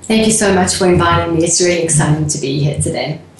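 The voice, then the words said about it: South African accent. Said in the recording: “do you not love that wonderful accent of hers? ... Originally from South Africa. ... I lived in England for a while and now in the South, in Texas. So now I think I'm confused.”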